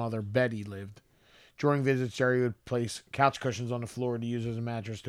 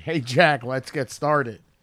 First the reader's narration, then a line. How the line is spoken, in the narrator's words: Larry David can be heard shouting